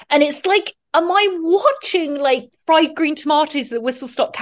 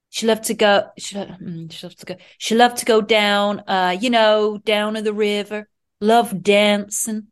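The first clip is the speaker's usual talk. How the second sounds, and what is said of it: Put-on Southern US accent. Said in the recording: “what is the South? ... trying to do my accent”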